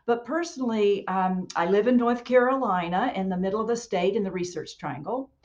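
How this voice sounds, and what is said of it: Local North Carolina accent. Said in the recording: “I say, and yeah, I know y'all. It's very, I'll take longer because of my local accent.”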